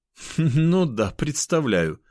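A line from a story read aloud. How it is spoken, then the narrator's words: Laughing. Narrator (Russian): она рассмеялась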